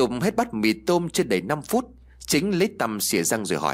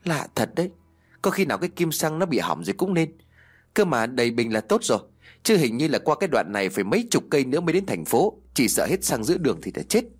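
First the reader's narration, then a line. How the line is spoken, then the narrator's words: Sighing speech. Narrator (Vietnamese): Hưng liền thở dài nói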